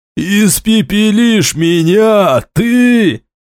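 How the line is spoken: Loud laughter. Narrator (Russian): расхохотался

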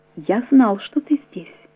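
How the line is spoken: Timid. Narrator (Russian): робко говорит Штейнбах

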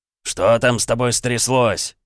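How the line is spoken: Growling. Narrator (Russian): прорычал Билл

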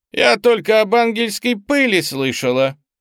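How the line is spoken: Near shout, loud. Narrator (Russian): Лиза практически выкрикнула это на весь ресторан

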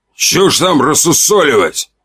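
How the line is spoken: Barked shout. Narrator (Russian): гаркнул он

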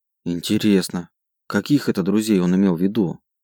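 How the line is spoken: Gloomy question. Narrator (Russian): мрачно спросила она

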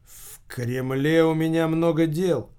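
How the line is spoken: Tired speech. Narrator (Russian): устало проговорил Михаил Павлович

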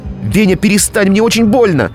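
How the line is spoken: Very loud shout. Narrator (Russian): Она кричала слишком громко

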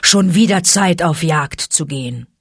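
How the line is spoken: Growl. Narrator (German): knurrte Vater Wolf

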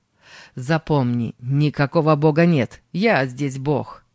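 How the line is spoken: Loud, angry. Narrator (Russian): с гневом громко сказал

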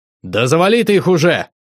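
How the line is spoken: Shout. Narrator (Russian): крикнул я

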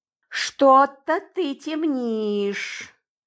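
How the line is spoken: Meaningful drawl. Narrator (Russian): многозначительно протянула я

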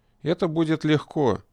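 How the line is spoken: Completely calm. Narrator (Russian): совершенно спокойно сказал он

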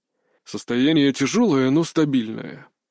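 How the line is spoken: Muffled, hollow voice. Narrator (Russian): глухо произнес врач

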